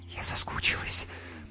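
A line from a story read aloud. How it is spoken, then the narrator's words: Whisper. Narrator (Russian): прошептала Юлька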